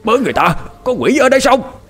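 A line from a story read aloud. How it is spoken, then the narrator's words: Old man's startled cry. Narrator (Vietnamese): Ông lính già chỉ kịp kêu lên một câu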